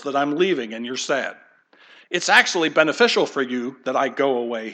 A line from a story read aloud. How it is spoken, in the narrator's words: he said